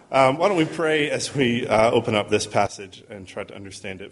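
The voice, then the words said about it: Mid-Atlantic accent. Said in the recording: “I have a nice mid-Atlantic accent. ... I don't sound like I'm from here, and apparently I don't sound like I'm from there anymore either”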